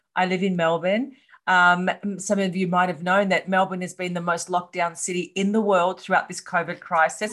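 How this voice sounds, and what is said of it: Australian accent. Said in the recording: “I'm from Australia, hence the accent.”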